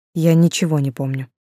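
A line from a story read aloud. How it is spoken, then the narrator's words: Gloomy. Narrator (Russian): уже мрачно сказал Кирилл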